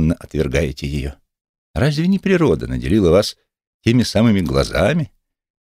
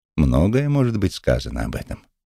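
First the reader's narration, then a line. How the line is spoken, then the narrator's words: Calm reply. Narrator (Russian): спокойно ответил травник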